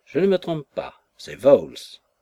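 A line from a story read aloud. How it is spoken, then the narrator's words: Sudden cry, old man. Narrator (French): s'écria tout à coup notre vieil enfant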